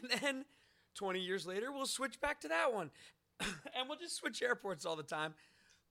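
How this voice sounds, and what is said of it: Hoarse, strained voice. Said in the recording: “I'm losing my voice. ... wrecked.”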